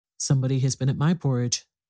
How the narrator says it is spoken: said the middle bear in his middle voice

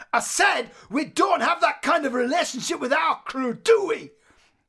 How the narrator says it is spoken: Dec, shouting aggressively

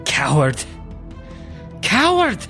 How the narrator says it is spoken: yelling

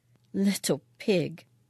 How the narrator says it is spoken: She muttered something under her breath

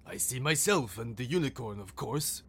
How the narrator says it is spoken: replied the lion irritably

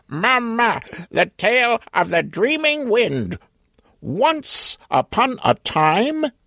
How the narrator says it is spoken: He screeched three times, lifted his wings, bobbing his head twice, and said

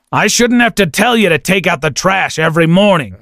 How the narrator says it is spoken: he growled

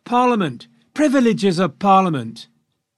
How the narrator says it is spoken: But many more shouted

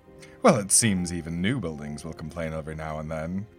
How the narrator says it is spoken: the Lord said with a chuckle

